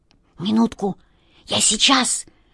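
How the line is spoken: Whisper. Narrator (Russian): шепнул Васе кот Васька

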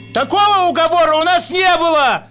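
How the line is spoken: Stone shouting. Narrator (Russian): закричал камень

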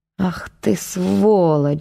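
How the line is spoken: Spiteful mutter under breath. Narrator (Russian): злобно пробормотал Игорь себе под нос

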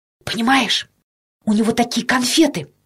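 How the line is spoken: Quick whisper. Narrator (Russian): Быстро зашептал Петька

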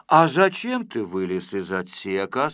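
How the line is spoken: Plain. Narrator (Russian): спросил Незнайка

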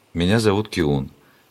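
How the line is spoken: Sad. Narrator (Russian): печально сказал горожанин

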